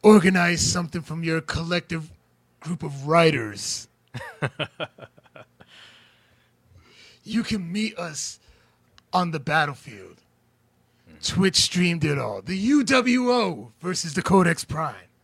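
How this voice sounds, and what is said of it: Imitates another person's voice. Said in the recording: “do my best Kenny Omega impression”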